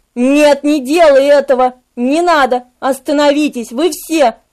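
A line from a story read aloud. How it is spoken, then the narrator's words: Moaning. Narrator (Russian): простонал Мемнах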